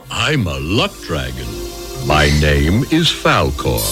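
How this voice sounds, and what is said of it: Character voice of a luck dragon. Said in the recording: “I don't know how you did that voice, ... but that was amazing. ... That was excellent.”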